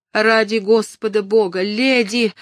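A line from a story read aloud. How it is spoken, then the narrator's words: Shout. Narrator (Russian): закричала Кэтрин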